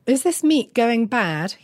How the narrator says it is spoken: he called out

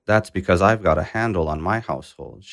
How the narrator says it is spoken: Sheikh Burhan replied

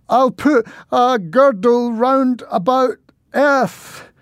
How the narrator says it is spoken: spluttered as suddenly the duck attacked

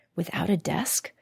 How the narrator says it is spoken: whispered Ilka anxiously

